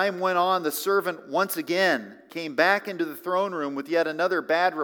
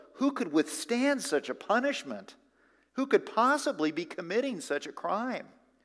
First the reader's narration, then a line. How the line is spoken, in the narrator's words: The people began to murmur among themselves